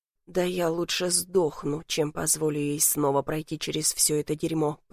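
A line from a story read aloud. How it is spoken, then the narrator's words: Growling. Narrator (Russian): прорычал я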